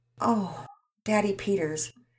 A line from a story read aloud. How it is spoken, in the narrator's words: Mama Peters sighed